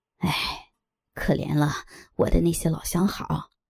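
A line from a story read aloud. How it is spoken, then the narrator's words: Sighing. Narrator (Chinese): 又叹气道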